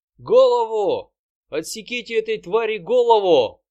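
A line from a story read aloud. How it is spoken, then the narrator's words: Shouting. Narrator (Russian): кричал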